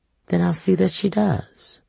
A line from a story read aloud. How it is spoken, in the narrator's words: Setha sighed